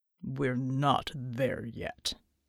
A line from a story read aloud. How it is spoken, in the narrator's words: he rumbled